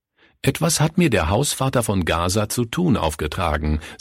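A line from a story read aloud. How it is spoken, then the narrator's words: Plain. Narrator (German): sagte Günther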